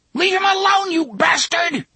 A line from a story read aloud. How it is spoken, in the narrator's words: Jake screamed